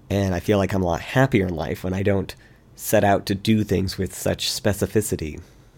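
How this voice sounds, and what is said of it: Rough, sick-sounding voice. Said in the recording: “forgive my voice ... did a number on my throat”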